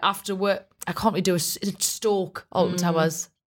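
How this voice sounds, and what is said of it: Generic northern English accent. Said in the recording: “Don't know what that accent is, but it was just more generic northern than mine. That's actually Teesside.”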